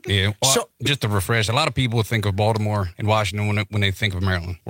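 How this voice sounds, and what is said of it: Southern American accent. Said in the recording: “he's got a Southern accent”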